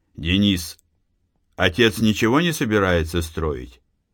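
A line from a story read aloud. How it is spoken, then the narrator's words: Plain question. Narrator (Russian): спросил Матвей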